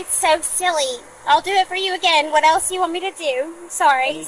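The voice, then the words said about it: Southern American accent. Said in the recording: “The southern accent is coming out.”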